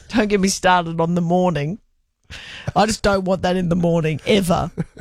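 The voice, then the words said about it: Speaks with a regional accent. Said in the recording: “It's the accent. Sorry, it's the accent. ... my accent sounds like I'm saying that word over your accent.”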